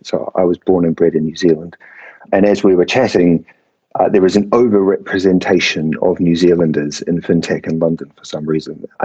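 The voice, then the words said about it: New Zealand accent. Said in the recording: “the accent is not a British accent, but in fact, a Kiwi accent.”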